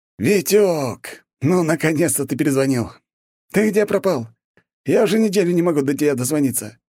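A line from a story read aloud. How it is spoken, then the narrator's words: Joyful unfamiliar voice. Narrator (Russian): радостно выполнил незнакомый голос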